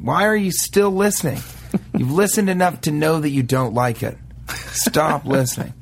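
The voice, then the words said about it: Trisket Hurlibutton character voice. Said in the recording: “that was Trisket Hurlibutton that delivered that last line ... impersonating”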